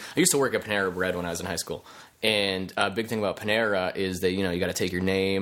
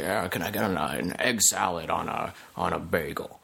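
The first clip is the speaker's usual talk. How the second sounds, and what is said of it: Half Jimmy Stewart impression. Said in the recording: “I'm going to do a half Jimmy Stewart impression. Cause this guy like kind of sounded like it.”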